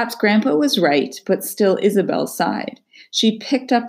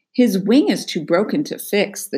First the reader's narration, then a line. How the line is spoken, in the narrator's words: the doc said